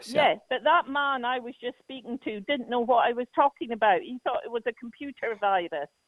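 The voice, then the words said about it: Funny put-on accent. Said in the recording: “that accent is adorable ... your funny accent”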